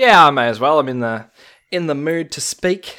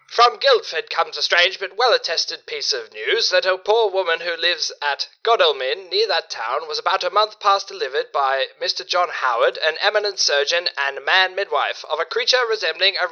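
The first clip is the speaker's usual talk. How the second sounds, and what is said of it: Old-timey newsreader voice. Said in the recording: “my best old-timey news voice”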